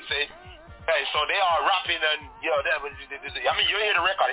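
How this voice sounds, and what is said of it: Patois-accented English. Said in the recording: “You know my dialect, you know, the patois”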